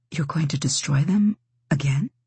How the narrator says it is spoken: she whispered

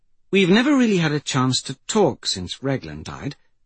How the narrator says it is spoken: she began in a gentle, empathetic tone

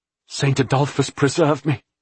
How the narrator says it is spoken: he gasped

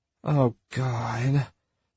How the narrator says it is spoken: Paxton said with a groan

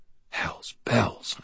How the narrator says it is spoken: I breathed

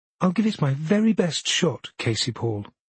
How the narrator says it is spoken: she says sweetly

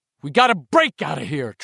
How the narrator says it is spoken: Trev yells

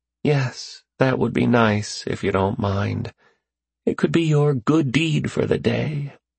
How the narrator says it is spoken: She dropped her head back with a sigh and said

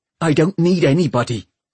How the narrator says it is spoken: she said fiercely

